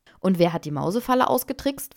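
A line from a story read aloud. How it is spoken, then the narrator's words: Plain. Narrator (German): fragte Gunilla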